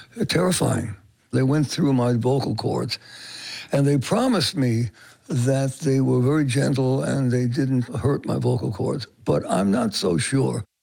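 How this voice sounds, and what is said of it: Hoarse voice. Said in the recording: “Manilow is still hoarse”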